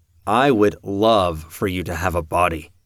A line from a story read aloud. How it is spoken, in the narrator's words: Peter said